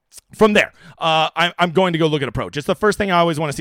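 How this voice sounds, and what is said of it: Usual voice. Nothing is said of it.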